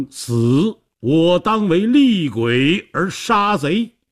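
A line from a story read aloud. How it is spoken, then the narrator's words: Roaring. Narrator (Chinese): 他大吼一声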